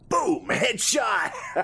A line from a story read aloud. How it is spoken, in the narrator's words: Ken yelled out in excitement